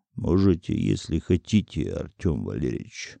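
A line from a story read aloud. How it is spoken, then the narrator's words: Calm reply. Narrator (Russian): спокойно ответил Глыба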